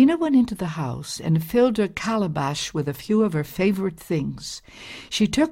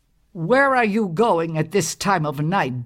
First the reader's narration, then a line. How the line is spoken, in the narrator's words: bellowed her husband